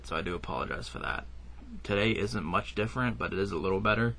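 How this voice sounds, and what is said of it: Weak, rough voice. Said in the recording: “my voice is a little weak today ... rough and it was beaten up a little bit”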